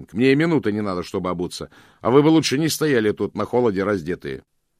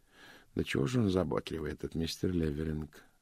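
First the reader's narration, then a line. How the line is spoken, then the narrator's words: Soft grumble. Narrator (Russian): мягко проворчал Пуаро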